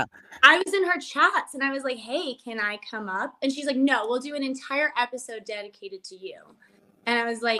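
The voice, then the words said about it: California Valley girl accent. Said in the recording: “Come across as this California Valley girl. You kind of have the accent”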